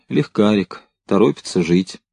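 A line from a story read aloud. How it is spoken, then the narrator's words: Calm, nonjudgmental confirmation. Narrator (Russian): Второй спокойно, без осуждения, подтвердил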